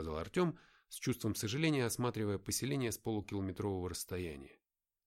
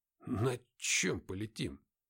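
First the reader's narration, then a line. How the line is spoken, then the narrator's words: Muttering. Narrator (Russian): пробормотал Артем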